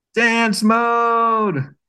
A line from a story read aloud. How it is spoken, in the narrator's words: Bluey and Bingo yell